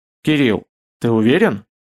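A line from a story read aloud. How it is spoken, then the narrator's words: Plain. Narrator (Russian): спросил хозяин кабинета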